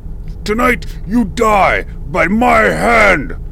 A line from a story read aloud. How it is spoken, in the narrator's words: Pons bellowed, his voice resembling that of a bull moose issuing its challenge to any who could hear